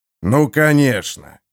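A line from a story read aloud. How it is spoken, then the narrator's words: Ironic snort. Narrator (Russian): иронически фыркнул Харман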